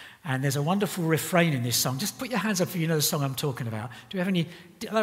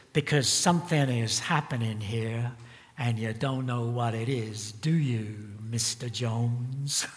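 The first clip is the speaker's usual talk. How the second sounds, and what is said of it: Imitates another person's singing voice. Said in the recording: “he sings in a kind of a cynical way ... That was my Dylan impersonation,”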